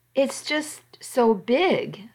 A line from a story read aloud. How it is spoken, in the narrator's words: I said